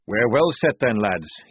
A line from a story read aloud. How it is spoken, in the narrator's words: he chuckled